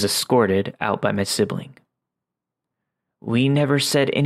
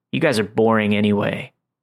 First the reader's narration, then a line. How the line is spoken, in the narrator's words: The kid scoffed and angrily said